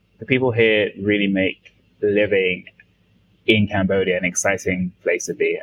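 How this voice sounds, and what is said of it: London English accent. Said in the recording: “coming from London, um, if your listeners can't tell from my accent”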